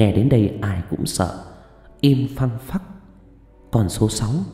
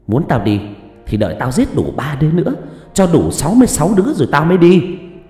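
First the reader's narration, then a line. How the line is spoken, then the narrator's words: Shrill shout. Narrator (Vietnamese): Nó hét lên choe choé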